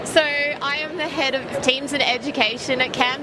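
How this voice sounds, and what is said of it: Australian accent. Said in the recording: “Beautiful Australian accent.”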